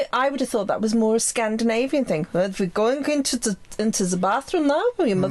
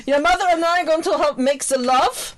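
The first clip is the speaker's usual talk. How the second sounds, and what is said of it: Put-on German accent. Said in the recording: “I'm doing a German accent.”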